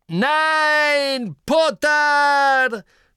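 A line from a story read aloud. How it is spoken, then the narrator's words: Shouting. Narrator (German): schrie Snape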